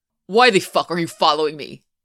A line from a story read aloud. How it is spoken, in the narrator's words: Rozanoff barks